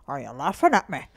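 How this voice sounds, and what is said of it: Put-on Irish accent. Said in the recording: “let me hear your Irish accent. ... Not bad.”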